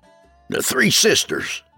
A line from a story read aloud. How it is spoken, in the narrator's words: I grumbled